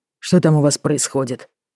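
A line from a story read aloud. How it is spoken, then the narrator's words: Barked. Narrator (Russian): рявкнул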